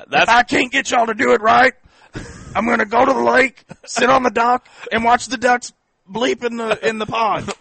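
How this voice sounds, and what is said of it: Imitates another person's voice. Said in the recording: “doing the impersonation of Nick Saban”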